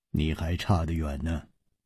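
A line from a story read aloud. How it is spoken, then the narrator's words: Cool, indifferent. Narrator (Chinese): 楚留香淡淡地说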